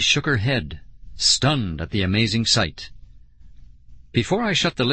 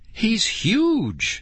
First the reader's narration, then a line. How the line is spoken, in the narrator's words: she cried in amazement